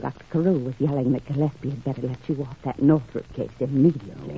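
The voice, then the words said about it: Whispering. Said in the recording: “What's all the whispering for?”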